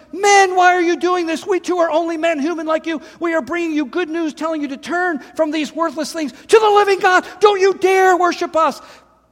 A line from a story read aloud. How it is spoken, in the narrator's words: shouting